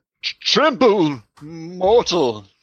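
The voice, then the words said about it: Deep, menacing master vampire voice. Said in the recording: “could do a master vampire voice? ... summon that presence and gravitas”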